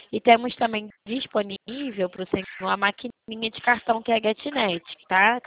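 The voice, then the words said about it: Rio de Janeiro Brazilian Portuguese accent. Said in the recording (Portuguese): “Pelo teu sotaque, eu notei que você é do Rio.”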